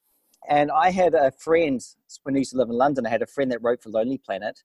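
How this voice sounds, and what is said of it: New Zealand accent. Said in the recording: “The accent comes from New Zealand, by the way.”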